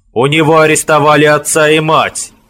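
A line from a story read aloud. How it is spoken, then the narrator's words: Loud. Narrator (Russian): Громко сказал Аварон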